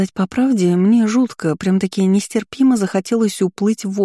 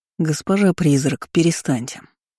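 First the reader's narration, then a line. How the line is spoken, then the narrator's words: Stern speech. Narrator (Russian): строго сказал Рейлин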